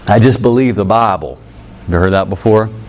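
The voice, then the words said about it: A slight Southern accent. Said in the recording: “Sorry, we're in the South. I had a little accent there.”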